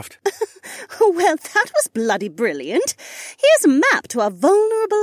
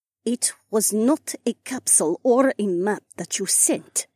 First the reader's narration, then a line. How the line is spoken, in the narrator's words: Edhara said more firmly